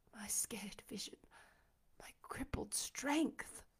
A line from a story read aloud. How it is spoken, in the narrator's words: he murmured regretfully